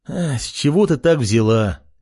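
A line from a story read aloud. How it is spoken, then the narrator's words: Sighing. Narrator (Russian): Вздохнул парень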